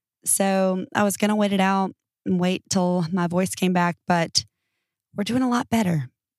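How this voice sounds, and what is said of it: Slightly hoarse voice. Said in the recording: “I am a little hoarse. I've been hoarse for 9 days”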